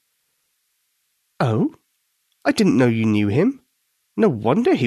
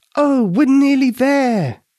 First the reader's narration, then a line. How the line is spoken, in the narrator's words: she said happily